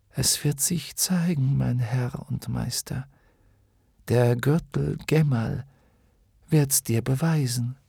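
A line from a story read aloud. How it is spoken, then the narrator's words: Smiling whisper. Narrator (German): lächelte sie wieder, und während sie violetten Rauch aus ihrem Mund steigen ließ, flüsterte sie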